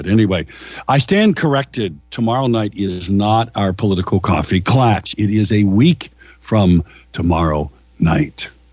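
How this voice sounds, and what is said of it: Rough voice, not yet recovered. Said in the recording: “Sorry for my voice today. I'm a little bit, I'm kind of over my cold, but the voice hasn't caught up to that yet.”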